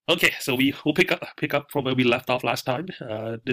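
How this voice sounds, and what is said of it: Nasal, congested voice. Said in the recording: “sorry about my voice. I actually been having probably a flu, no fever, but just cough, a lot of cough and running nose. So my voice is a little bit nasally”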